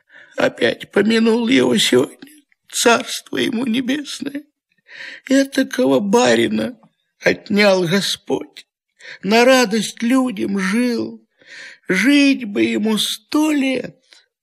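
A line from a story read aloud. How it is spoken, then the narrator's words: Sobbing lament. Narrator (Russian): Всхлипывал и приговаривал Захар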